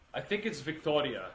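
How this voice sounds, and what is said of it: Word said in Italian accent. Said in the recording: “just said it with an accent”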